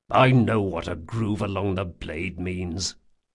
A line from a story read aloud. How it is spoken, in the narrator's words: mumbled Jean petulantly